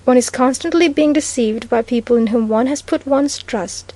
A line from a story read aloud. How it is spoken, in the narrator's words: he said anxiously